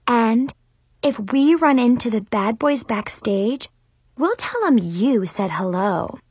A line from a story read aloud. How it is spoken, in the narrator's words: Zoe said all sweetly